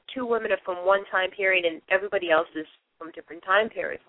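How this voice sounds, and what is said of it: Boston accent. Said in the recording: “my Boston accent because it's authentic and you know that it's real ... as you can hear me speak, I really do have the Boston accent”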